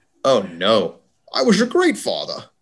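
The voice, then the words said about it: Imitates another person's voice. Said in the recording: “do I have to attempt a Sean Connery accent? ... That was pretty good. ... That wasn't bad.”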